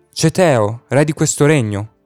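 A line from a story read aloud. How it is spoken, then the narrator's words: Mighty call. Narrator (Italian): Eracle chiamò con voce possente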